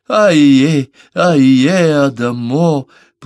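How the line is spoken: Moaning in pain. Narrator (Russian): простонала, губы кривились от боли

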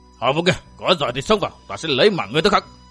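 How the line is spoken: Loud bellow. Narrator (Vietnamese): Thạch Cảm thì xông vào quát lớn

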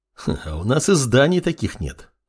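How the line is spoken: Snorting remark. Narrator (Russian): хмыкнул боевой канунг

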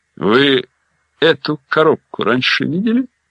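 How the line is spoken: Quiet question. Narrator (Russian): спросил негромко Каноли

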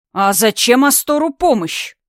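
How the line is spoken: Deep booming voice from doorway. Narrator (Russian): пробасил из дверного проема переросток Гарри

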